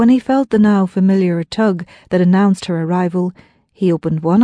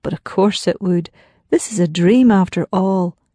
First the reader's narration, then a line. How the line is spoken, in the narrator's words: thought